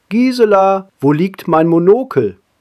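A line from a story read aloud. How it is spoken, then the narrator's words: Calling down from above. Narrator (German): rief herunter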